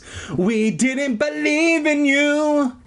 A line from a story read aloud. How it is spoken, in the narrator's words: he cried gleefully